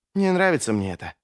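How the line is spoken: Whispered reply. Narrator (Russian): прошептал Ищейка в ответ

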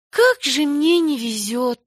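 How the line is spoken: Sighing. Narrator (Russian): вздохнула Энни

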